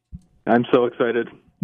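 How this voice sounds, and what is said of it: Flat monotone delivery. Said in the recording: “You said that monotone, but I think you are excited.”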